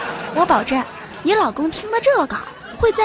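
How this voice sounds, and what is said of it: Usual voice. Nothing is said of it.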